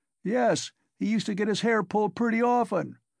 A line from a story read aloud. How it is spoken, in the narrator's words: roared the commissariat clerk again